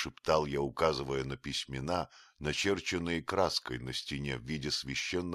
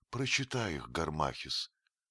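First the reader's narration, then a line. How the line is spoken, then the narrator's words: Quiet reply. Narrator (Russian): отвечала Клеопатра тихо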